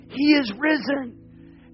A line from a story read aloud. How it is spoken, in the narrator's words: he cried out